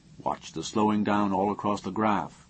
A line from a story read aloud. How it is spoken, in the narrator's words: he murmured